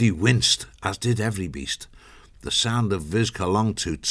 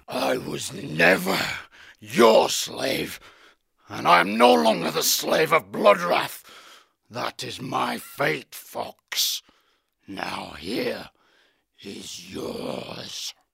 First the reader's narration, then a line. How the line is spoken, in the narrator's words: growled